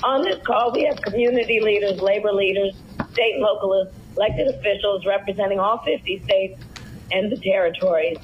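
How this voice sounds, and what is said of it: Hoarse, throaty voice. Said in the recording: “she sounds really weird because she had a frog in her throat during the whole thing ... You can hear I have a bit of a frog in my throat.”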